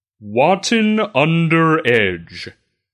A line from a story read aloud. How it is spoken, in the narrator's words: he says in his sonorous voice